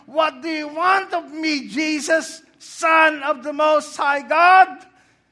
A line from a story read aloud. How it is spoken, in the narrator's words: And he shouted on top of his voice